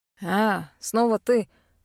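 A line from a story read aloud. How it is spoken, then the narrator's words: Snort. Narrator (Russian): фыркнул один из караульных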